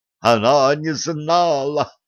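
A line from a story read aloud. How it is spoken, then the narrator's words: Joyful yell. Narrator (Russian): радостно завопил Бене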